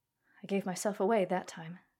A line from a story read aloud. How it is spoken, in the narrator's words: he said